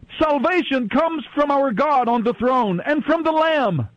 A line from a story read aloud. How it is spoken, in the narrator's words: they were shouting with a mighty shout